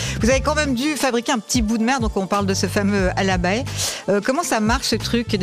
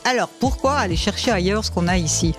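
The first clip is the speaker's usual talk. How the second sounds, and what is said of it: Put-on Valais regional accent. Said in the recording (French): “Je vous fais avec l'accent parce que je suis moi-même valaisanne.”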